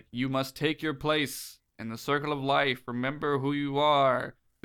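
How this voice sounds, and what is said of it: Imitates Mufasa's voice. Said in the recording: “This is a pretty good Liam Neeson impression ... Liam Neeson's Mufasa”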